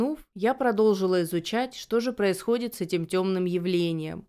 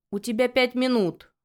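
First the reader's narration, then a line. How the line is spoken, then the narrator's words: Growling. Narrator (Russian): рыкнул он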